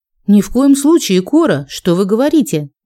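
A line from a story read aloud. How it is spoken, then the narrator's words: Quick exclamation. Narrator (Russian): воскликнула я быстрее, чем Абиран успел возмутиться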